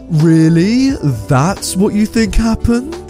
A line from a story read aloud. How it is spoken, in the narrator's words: He glared at me and said, in an incredibly condescending voice